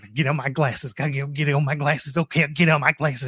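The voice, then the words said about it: Country accent imitating another person. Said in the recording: “What was that country accent”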